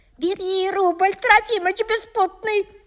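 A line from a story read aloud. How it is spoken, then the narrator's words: Wife yelling. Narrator (Russian): завопила жена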